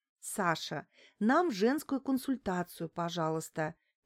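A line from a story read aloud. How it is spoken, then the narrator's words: Soft request. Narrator (Russian): мягко попросила его Лариса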